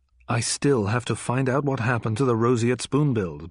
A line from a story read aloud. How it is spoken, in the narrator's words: Bond replied